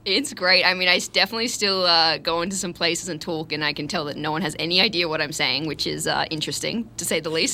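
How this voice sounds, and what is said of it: Australian accent with American twang. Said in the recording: “any Australian I talk to now now says that I have an American twang in, in the accent ... Americans say I sound too Australian ... Australians say I sound too American ... I'm trying to keep the Aussie accent going”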